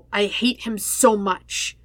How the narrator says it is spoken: he hisses

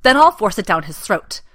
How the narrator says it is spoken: Watson snaps over his shoulder, more fiercely than he intends

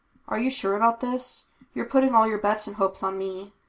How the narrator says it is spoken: Kane pointed out calmly

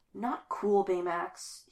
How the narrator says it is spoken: he whispers

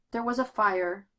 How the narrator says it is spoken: Bruce says wearily

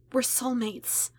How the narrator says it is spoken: she whispered back

